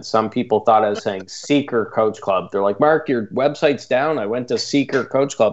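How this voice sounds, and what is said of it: Canadian accent. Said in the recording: “my strange Canadian accent ... darn Canadian accent”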